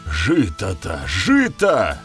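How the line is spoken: Exclaiming. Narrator (Russian): воскликнул Вернидуб

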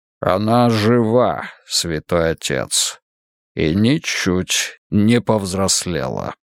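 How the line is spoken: Sinister tone. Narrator (Russian): кардинал произнес зловещим тоном

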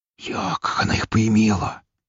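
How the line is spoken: Whispered. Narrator (Russian): прошептал кто-то

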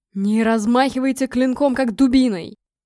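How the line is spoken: Barked command. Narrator (Russian): рявкнул Гром

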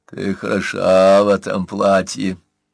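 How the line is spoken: Nasty gurgling voice. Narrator (Russian): пробулькал он гадким голосом

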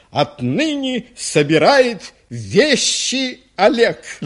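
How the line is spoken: Dramatic voice. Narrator (Russian): Ученик драматическим голосом начал

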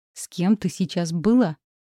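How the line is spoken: Growling man. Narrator (Russian): Мой жених рычал, а не говорил

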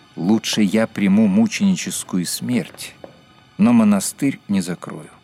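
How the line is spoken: Calm explanation. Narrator (Russian): он спокойно пояснил

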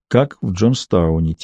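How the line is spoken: Quiet. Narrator (Russian): тихо произнесла Маура

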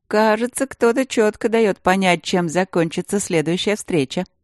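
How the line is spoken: Mocking inner voice. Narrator (Russian): ехидно подтрунил внутренний голос

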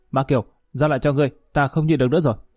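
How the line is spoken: Shouting. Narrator (Vietnamese): Lý Kỳ quát

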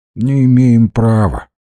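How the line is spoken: Dull flat voice. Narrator (Russian): тусклым голосом ответил парень

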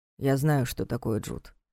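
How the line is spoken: Grumbled. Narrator (Russian): буркнул Карпатский

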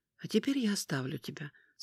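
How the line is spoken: Much calmer. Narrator (Russian): сказала Аметист гораздо более спокойно

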